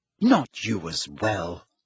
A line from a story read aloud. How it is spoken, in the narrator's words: said Hermione bitterly